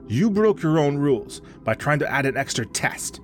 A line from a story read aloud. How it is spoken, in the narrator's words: Baba snapped